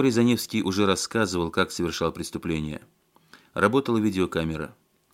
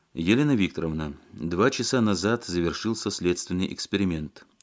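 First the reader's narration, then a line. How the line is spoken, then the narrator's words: Tired man. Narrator (Russian): устало сказал следователь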